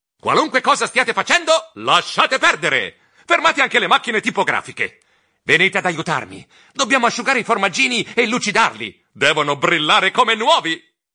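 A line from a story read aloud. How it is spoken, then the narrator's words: Emotional shout. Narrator (Italian): Con i baffi che vibravano per l'emozione, gridai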